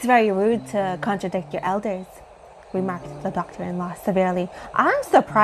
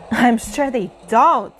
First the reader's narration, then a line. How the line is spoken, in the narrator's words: cried Girly